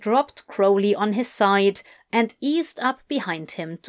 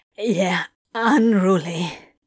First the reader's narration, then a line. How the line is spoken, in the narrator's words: Crowley managed in a shaky undertone